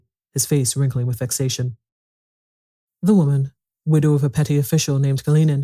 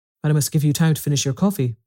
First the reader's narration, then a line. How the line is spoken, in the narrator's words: answered Matvey, in his friendly, rude tone, with which it was impossible to be angry